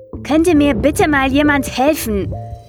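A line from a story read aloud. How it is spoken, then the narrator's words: Called out. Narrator (German): rief er schließlich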